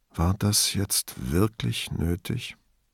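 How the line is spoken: Very quiet, gently scolding. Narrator (German): holte tief Luft und sagte ganz leise, als tadle er ein Kind

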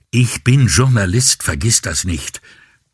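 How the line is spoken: Snapped back, almost angry. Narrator (German): schnappte Avisani fast schon wütend zurück

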